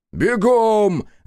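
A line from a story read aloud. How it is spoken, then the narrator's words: Rook yelling. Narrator (Russian): заорал грач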